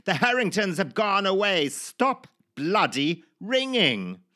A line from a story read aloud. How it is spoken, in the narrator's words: my father would bellow down to the hapless caller